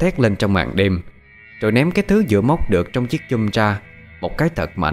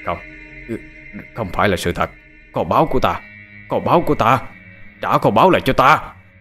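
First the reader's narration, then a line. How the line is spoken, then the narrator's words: Old man's despairing cry. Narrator (Vietnamese): Lão thất vọng la lên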